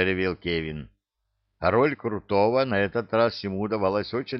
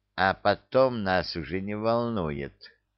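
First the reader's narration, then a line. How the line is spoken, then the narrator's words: Ingratiating, insinuating. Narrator (Russian): вкрадчиво сказал Задрыга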